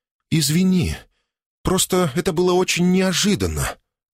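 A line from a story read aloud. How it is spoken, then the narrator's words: Breathy, into the ear. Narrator (Russian): Выдохнула мне в ухо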